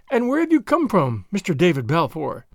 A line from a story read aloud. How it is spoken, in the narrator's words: he asked, looking me pretty dryly in the face